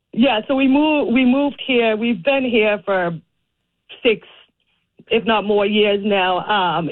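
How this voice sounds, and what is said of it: Boston accent. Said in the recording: “you might be able to tell by my accent, but I grew up in Boston, in Dorchester.”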